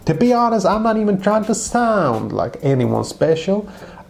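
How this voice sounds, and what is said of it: Put-on movie-style dialect. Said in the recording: “the reason I'm doing this voice ... I don't do voices very well ... My mind has just gone into like movie mode. And that's where I'm you know, accumulating this dialect. It's a good dialect.”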